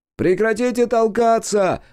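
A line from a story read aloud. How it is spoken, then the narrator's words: Crowd yelling. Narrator (Russian): вопили в толпе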